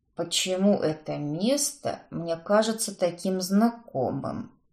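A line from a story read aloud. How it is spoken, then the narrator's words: Sepulchral mutter. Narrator (Russian): Пробормотал визитер загробным голосом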